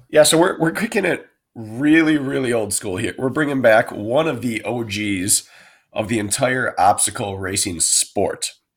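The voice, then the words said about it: Raspy, hoarse sick-sounding voice. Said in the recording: “I'm a little sick here, guys, so I'm going to be raspy today. ... Yeah, you sound really bad. ... Like Jadakiss. ... Mr. Raspy?”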